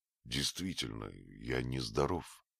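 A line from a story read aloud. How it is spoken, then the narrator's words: Muttering. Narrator (Russian): пробормотал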